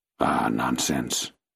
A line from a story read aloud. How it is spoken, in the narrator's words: I forced myself to murmur